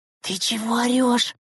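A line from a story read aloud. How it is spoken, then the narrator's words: Frightened whisper. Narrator (Russian): испуганно вытрящив глаза, зашептала Текаева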